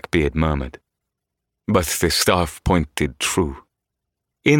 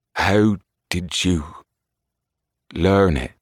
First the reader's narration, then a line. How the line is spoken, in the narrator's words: He asked very slowly